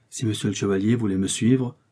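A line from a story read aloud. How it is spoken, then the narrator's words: Timid speech. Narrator (French): dit timidement Ketty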